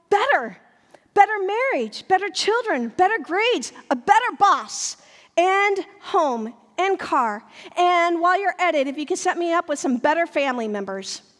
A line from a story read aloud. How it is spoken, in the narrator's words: unable to stop, we yell